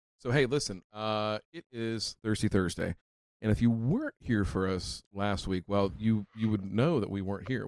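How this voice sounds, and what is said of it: Low, subdued voice. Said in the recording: “I'm talking in a low voice tonight because, well, I was yelling all fucking night last Thursday.”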